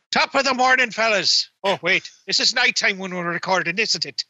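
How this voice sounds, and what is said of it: Poor put-on Irish accent. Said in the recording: “This is the poorest Irish accent ever.”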